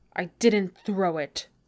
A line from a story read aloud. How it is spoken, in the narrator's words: Thorin snarls